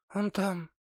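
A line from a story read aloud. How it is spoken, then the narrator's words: Quiet. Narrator (Russian): тихо сказала она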